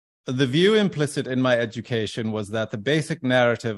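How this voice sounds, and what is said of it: Put-on British accent. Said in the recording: “I don't know if I should do a British accent or not ... you do a great British accent.”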